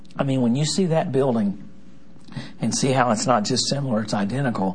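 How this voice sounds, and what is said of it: Strained, troubled speaking voice. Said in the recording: “Sorry about my voice. ... golly, my voice is”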